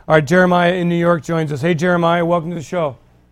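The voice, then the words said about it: Tired, voice starting to give out. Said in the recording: “I'm getting a little weary here. My voice is starting to go.”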